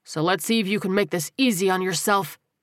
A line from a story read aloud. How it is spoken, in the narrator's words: Terrell said in a low, forceful voice